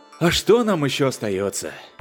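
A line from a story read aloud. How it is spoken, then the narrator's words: Dreamy sigh. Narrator (Russian): мечтательно вздохнул Джон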